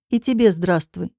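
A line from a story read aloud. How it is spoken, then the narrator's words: Cold. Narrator (Russian): холодно отвечаю я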